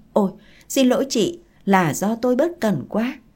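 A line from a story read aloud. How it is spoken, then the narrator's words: Stammering apology. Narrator (Vietnamese): Miệng tôi lúc này mới lắp bắp nói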